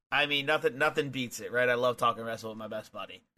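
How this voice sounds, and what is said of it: Hoarse voice. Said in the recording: “as if I didn't just scream it at the top of my lungs ... my voice sounds a little more hoarse than usual”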